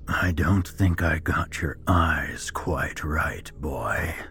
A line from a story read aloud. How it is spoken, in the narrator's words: he mocked in a raspy voice